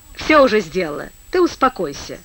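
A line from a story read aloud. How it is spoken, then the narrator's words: Dry reply. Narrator (Russian): сухо откликнулась Настасья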